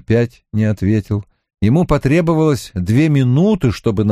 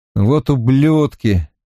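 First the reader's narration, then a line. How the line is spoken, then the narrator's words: Grumbling. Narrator (Russian): проворчал я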